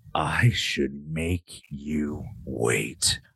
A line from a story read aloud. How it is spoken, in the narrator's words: I growl